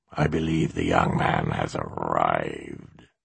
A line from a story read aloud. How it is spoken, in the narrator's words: Simba said in his purr-growl voice